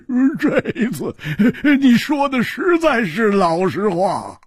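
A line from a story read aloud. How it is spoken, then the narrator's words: Loud laughter. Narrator (Chinese): 老实和尚大笑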